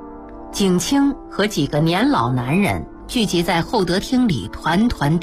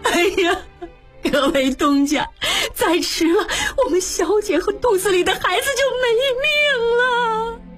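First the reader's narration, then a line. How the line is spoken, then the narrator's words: Crying, desperate. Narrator (Chinese): 李妈又跑进来，进门就哭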